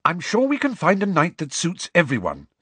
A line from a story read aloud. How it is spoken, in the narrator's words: said Hermione slightly impatiently